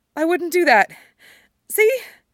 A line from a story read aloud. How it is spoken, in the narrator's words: His voice hitches a little